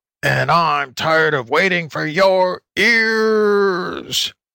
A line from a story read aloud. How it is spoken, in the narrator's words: howled the wolf